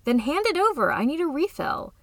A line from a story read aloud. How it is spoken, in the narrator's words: Emmeline laughed encouragingly